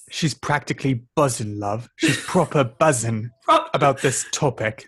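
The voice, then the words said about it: Put-on British reality-TV accent. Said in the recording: “That's me doing like Love Island. ... I definitely can maintain that accent.”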